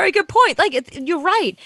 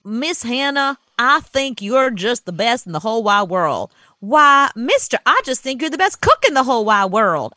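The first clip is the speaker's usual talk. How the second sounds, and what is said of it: Put-on Southern American accent. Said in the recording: “Wherever it's broadcasting, that's the accent it should have. So if you're down in the South, it should be”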